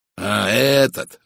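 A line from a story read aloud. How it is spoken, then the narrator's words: Exclamation. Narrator (Russian): воскликнул майор Барри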